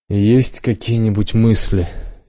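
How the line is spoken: Heavy-sighing question. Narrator (Russian): тяжко вздохнув, спросил адмирал

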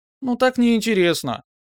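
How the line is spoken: Squeaky offended voice. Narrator (Russian): несостоявшийся фигляр от обиды снова заговорил писклявым голосом

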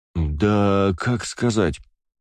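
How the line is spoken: Drawled. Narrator (Russian): протянул сенсей

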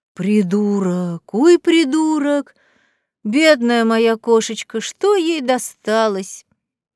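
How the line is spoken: Sympathetic agitated lament. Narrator (Russian): Протянул сочувственно пушистик, взволнованно причитая

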